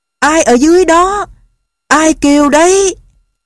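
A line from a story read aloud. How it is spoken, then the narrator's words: Astonished loud shout. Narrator (Vietnamese): Don Quixote lấy làm kinh ngạc, chàng cố gào thật to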